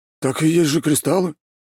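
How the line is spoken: Frightened reply. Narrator (Russian): испуганно ответил он

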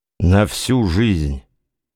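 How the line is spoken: Gloomy. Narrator (Russian): сказал он мрачно

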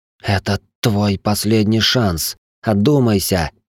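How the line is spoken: Hiss. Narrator (Russian): прошипела Шайнари

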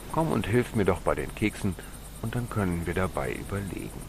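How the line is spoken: Plain. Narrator (German): sagte Mama

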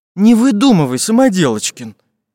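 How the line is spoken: Frightened. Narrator (Russian): испуганно отшатнулся

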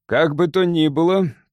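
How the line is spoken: Grumbling. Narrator (Russian): проворчал Кентигерн

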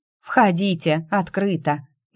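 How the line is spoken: Gloomy bark. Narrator (Russian): мрачно рявкнула я

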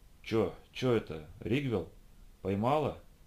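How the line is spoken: Mumbled. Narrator (Russian): пробормотал я

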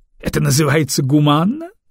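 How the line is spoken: Snorting commander. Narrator (Russian): хмыкнул командующий

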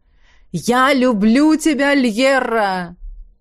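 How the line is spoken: Exclaiming. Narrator (Russian): воскликнул он

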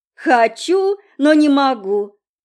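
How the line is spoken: Laughing. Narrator (Russian): засмеялась Долли

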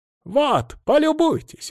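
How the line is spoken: Exclamation. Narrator (Russian): воскликнул он

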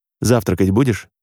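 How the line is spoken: Plain. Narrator (Russian): спросил Сергей

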